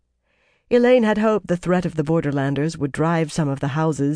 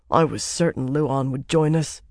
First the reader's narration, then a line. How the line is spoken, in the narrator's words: Conile muttered